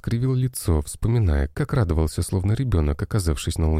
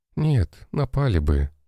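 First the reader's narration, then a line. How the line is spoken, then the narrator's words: Sighing. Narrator (Russian): вздохнула Мария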